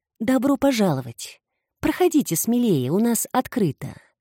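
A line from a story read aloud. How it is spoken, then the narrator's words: Pleasant deep voice, calm, unhurried. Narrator (Russian): Приятный грудной голос лился спокойно и неторопливо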